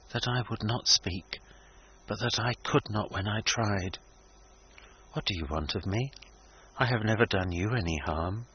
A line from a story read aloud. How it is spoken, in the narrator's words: returned the lady in a low voice